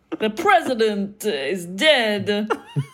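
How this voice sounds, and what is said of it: Christopher Walken-style impersonation. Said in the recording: “was it Christopher Walken on the other end of the line? ... You've got real good at accents and impersonations”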